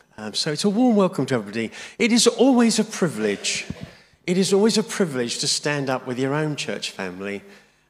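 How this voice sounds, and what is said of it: Voice sounds unwell, not 100%. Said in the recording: “you can tell from my voice, I'm not 100%”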